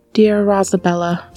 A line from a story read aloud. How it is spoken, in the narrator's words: said the bird boy sadly